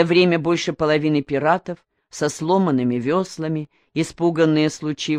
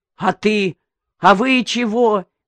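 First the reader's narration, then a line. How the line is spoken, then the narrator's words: Frantic shouting. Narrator (Russian): кричал Калан, не помня себя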